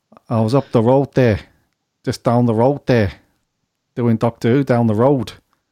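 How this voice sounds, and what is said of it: Imitates another person's voice, regional accent. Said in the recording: “I can't do the accent. ... It's sort of a cross between ... Ringo Starr ... and ... Chris Eccleston.”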